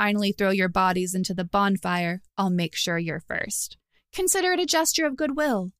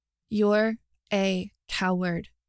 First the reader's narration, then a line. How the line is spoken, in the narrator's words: she said slowly